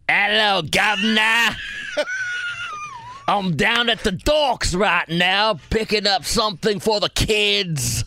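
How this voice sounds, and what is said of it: Put-on Cockney accent, fairly good. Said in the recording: “I know what that accent is. That's ... Cockney accent. ... It's not bad at all. ... That's actually not bad.”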